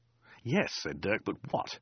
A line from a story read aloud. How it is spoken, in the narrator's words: Kate sighed